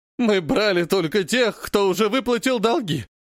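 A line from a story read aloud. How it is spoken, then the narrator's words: Slaver whining. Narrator (Russian): скулит работорговец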